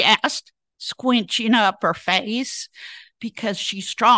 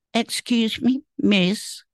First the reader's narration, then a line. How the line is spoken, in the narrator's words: said Ole timidly